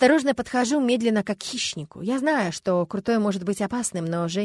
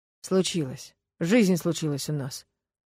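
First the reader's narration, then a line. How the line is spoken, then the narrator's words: Gloomy. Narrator (Russian): говорит мрачно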